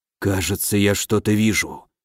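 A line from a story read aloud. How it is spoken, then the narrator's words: Whispered. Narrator (Russian): прошептал Дельвик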